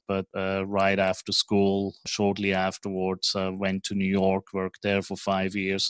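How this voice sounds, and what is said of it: Swiss accent. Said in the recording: “my strange accent is from Switzerland”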